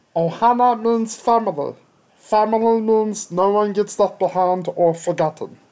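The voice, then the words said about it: Imitates a cartoon character's voice. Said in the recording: “my Stitch impression”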